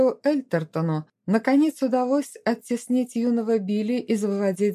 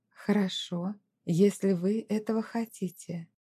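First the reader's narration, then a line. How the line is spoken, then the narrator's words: Soft gentle reply. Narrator (Russian): леди Этелерида мягко ответила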